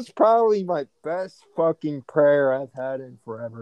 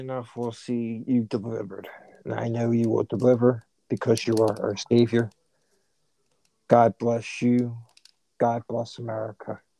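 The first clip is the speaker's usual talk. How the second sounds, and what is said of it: Priest-like praying delivery. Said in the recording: “I sounded like a fucking priest or some shit”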